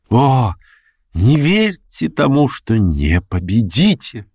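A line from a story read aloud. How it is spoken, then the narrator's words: Sudden near-ecstatic exclamation. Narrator (Russian): воскликнул он вдруг почти в восторге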